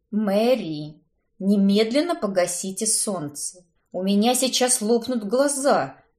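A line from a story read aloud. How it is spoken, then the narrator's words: Hoarse, indignant. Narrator (Russian): прохрипела я, возмущенная одной только мыслью, что экономка бесцеремонно ворвалась в гостевую спальню и потревожила мой сон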